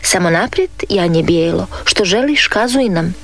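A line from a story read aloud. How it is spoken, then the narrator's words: Plain. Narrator (Croatian): reče učitelj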